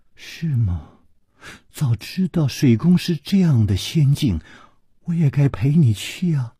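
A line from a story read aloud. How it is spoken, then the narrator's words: Soft sigh. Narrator (Chinese): 李红秀轻轻地叹了一口气说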